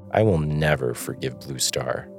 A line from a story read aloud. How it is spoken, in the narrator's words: he growled